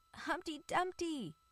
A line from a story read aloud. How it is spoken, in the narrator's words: cried others, and there was a famous uproar